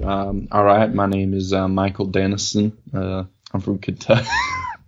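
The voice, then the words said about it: Put-on Southern US accent. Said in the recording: “It's a southern accent, but I'm trying to think. It doesn't sound like a Kentucky accent.”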